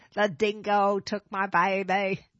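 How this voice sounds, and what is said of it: Weak put-on Australian accent. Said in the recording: “Let me hear your Australian accent ... That's not very good. ... You gotta go up at the end.”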